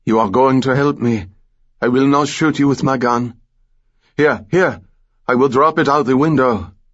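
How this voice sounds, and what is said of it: French Malagasy accent. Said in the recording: “the cop replied in a French Malagasy accent”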